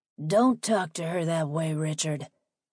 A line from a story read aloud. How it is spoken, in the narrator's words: Lincoln growled